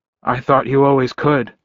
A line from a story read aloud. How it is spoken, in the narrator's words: I said